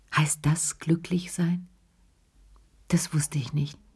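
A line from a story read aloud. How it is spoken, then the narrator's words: Very quiet. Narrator (German): sagte er ganz leise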